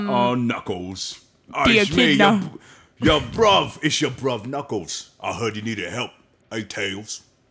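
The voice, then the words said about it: Imitated voice with cockney accent. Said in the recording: “your Idris Elba impression spot on ... It gets more and more cockney as time goes on”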